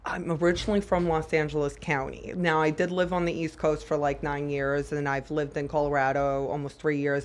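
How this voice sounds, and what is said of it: Distinctive accent, altered speech. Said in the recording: “so that's the accent. That's where the accent comes from. The 9 years ... a good amount is brain damage ... it changed how I talked”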